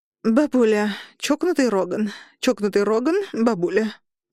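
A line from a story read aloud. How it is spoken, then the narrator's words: Strained, forced out. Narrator (Russian): выдавила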